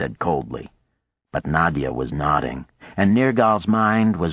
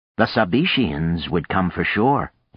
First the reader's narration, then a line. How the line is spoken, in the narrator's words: he said